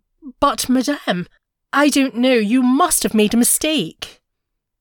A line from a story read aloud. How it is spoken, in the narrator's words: She stammered